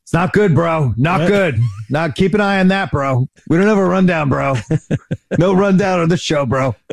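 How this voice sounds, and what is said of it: Imitates another person's voice. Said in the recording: “that's a spot-on impersonation”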